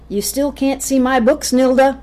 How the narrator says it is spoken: he shouted

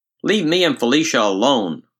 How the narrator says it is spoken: Mark shouted back

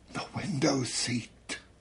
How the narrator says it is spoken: Mother whispered

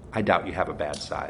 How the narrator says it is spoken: said

